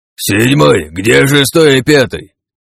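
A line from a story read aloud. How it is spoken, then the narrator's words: Fairly loud demon. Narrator (Russian): Довольно громко произнес третий демон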